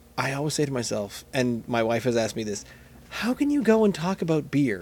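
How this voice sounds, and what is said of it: Usual voice. Nothing is said of it.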